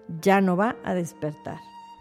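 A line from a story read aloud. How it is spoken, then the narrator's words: Low drawling voice. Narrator (Spanish): El doctor contestó con voz baja, arrastrando las palabras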